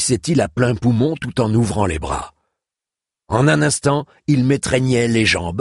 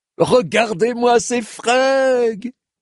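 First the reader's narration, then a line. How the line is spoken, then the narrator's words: Dwarf exclaiming. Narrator (French): s'exclamait le nabo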